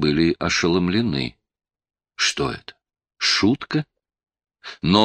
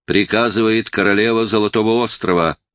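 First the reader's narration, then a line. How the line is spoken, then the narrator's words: Shouted from ship. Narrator (Russian): С корабля крикнули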